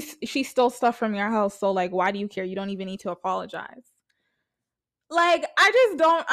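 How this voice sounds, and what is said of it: Usual voice. Nothing is said of it.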